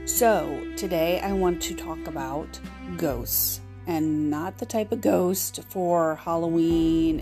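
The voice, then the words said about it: Nasal, slightly hoarse voice. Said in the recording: “I am battling a sinus infection ... I sound nasal or I sound a little hoarse, ... or I breathe too much”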